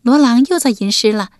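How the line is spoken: Laughing. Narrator (Chinese): 萨珊苏笑道

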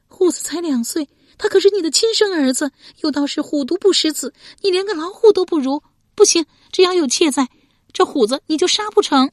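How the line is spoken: Crying woman. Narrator (Chinese): 亚子哭着说

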